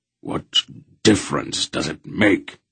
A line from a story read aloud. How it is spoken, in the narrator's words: He muttered